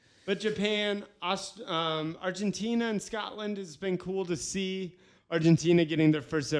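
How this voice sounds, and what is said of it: Usual voice. Nothing is said of it.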